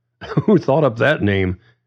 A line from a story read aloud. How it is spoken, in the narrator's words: John chuckled